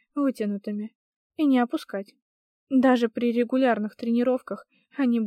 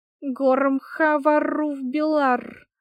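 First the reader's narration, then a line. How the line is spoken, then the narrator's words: Sudden droning, strange voice. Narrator (Russian): Вдруг забубнила чужим голосом Огни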